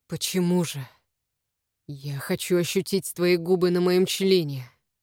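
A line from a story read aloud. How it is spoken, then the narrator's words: Hoarse, close to ear. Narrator (Russian): сказано хрипло мне на ухо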